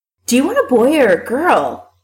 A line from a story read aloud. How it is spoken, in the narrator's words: Allison asks excitedly